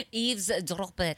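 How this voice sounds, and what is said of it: Put-on French accent. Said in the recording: “Say it in French, in a French accent ... Oh, sounds so nice.”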